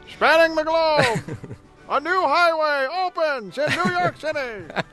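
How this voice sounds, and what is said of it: Old newsreel announcer voice. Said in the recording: “talk in a newsreel announcer voice”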